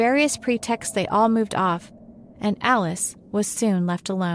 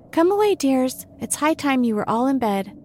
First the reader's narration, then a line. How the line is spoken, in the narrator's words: a canary called out in a trembling voice to its children